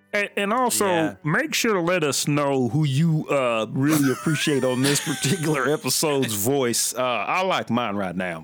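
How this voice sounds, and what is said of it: Poor imitation of a country singer. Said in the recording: “my horrible imitation of Randy Travis ... You're like a mix between Bill Cosby and Dave Ramsey”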